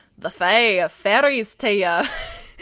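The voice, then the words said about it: Attempted Scottish accent. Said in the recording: “I can't do a Scottish accent. ... That wasn't all that bad to start, though.”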